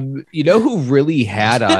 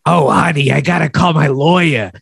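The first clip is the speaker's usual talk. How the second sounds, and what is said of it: Raspy camp voice impression. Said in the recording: “gay raspy voice guy”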